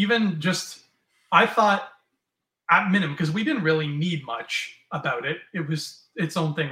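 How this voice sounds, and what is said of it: Usual voice. Nothing is said of it.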